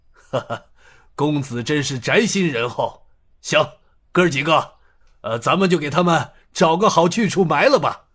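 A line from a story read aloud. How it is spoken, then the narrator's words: Chuckling. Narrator (Chinese): 刘应坤呵呵笑道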